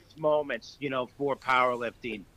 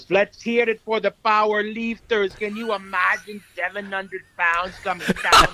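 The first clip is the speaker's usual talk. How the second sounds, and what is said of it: Good Arnold impression. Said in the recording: “doing Arnold... that was a great impression.”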